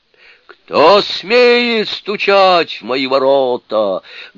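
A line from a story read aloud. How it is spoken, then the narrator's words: Menacing shout, wizard. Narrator (Russian): грозно крикнул волшебник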